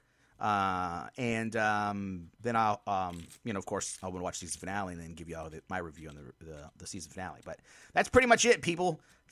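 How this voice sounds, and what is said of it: Very fast speech. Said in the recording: “why I'm talking so fast”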